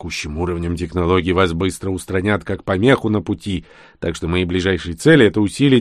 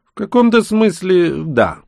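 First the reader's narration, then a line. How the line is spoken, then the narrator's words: Smug chuckle. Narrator (Russian): хмыкнул я без ложной скромности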